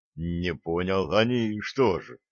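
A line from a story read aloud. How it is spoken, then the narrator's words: Confused mutter. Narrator (Russian): растерянно бормотнул Джо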